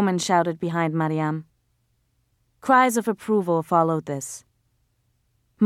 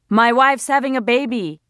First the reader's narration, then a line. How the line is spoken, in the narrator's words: a heavy-set man yelled